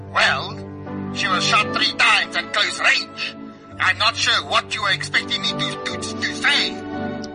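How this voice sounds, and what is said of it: Deliberately bad comic foreign accent. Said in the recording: “your accent is very funny today... a very, very, very bad accent”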